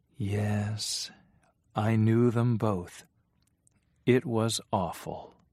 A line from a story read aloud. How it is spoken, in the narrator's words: looked unhappy and said in a low voice